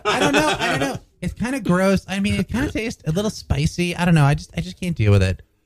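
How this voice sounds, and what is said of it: Imitates another person's voice. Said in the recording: “That's my impression of Catherine... That's not a very good impersonation”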